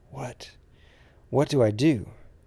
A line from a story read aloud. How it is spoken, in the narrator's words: He didn't realize he was whispering